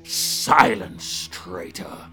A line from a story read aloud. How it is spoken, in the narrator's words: the ruthless ruler bellowed